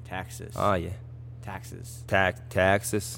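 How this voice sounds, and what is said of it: Put-on Southern American accent. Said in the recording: “working on my uh, American accent's coming along quite well ... specialize in the southern area”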